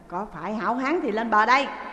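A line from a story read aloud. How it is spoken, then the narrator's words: Shouted. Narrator (Vietnamese): Lý Quỳ cũng quát lên mà rằng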